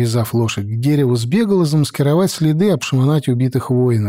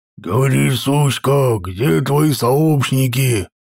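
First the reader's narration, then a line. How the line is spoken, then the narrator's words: Rough male growl, close. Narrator (Russian): прорычал грубый мужской голос над ухом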